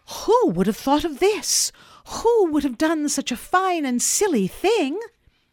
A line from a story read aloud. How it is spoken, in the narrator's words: exclaim with delight